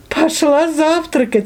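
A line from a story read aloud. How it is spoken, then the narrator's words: Laughing. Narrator (Russian): рассмеялась Алиса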